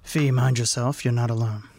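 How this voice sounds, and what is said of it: Character voice. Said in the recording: “in my Fetter's voice, not in impersonation of Parsifal's voice”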